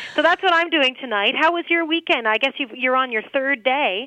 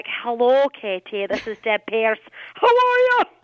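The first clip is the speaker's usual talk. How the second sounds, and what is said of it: Put-on Scottish accent. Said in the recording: “Oh, I like the Scottish brogue ... I don't know who I became there with that accent.”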